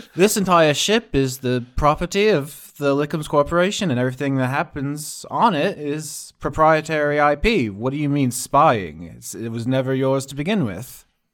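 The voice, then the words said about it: Put-on British accent. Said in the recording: “I'll have to do a fucking British accent.”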